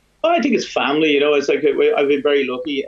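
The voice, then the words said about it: Strong Dublin accent. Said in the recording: “I still hear a Dublin man. ... very strong ... Dublin accent. That has not disappeared whatsoever.”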